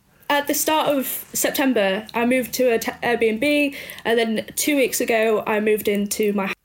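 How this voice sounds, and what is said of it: Doncaster Yorkshire English accent. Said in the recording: “originally from Doncaster... I can hear that in the accent.”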